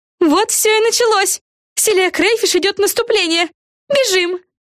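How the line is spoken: Yelling. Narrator (Russian): завопила Яна

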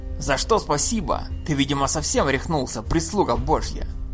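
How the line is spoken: Crowd barking. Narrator (Russian): рявкнул передний ряд зачарованных людей

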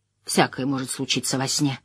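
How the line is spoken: Mumbled. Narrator (Russian): промямлил он

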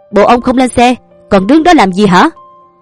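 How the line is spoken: Loud bark. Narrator (Vietnamese): Tên còn lại ... quát lớn

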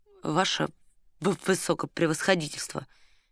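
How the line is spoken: Quiet. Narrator (Russian): тихо сказал Ираст Петрович

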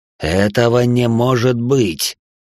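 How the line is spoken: Hissing. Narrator (Russian): Прошипел он

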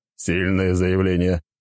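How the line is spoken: Wry snort. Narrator (Russian): хмыкнул звездочет

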